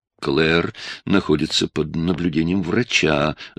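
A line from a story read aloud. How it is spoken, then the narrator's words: Defensive mumbling. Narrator (Russian): забормотал Рори, выгораживая себя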